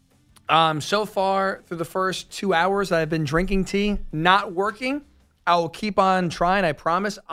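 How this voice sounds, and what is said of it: Deeper, scratchy hoarse voice. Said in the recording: “try to get my voice any better ... my voice is now a little bit deeper, a little bit scratchier ... compared to the normal high pitched tones”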